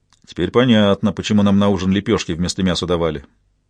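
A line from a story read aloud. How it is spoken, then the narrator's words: Hungover grumbling. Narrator (Russian): проворчал Билли, переживавший тяжелые похмелья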